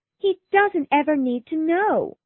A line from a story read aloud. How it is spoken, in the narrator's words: cried Lydia joyfully